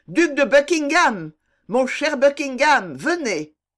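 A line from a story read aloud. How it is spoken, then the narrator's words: Shouted. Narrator (French): cria-t-il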